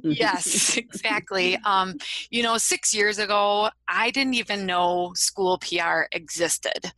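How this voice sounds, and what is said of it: Wisconsin accent. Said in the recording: “I am from Wisconsin. You might be able to tell that from my accent.”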